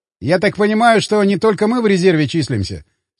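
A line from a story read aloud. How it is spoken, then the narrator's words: Plain question. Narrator (Russian): спросил Фоминых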